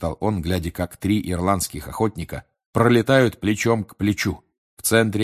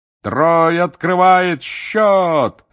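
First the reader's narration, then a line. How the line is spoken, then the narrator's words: Roar. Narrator (Russian): взревел Бэгман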